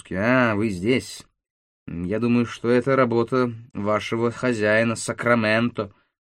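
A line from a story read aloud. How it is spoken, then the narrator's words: Grumbled in French. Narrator (Russian): буркнул по-французски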